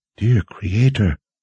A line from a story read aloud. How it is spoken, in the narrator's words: Verna whispered